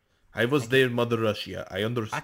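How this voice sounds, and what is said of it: Attempted Russian accent. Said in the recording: “I can't do a Russian accent.”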